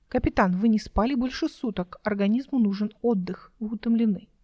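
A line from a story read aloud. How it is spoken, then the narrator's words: Artificially caring tone. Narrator (Russian): Голос заявил искусственно заботливым тоном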